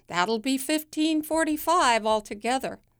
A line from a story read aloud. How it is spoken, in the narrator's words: the cashier yells